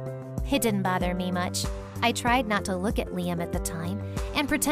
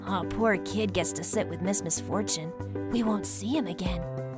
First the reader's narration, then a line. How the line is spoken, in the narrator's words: My classmates started whispering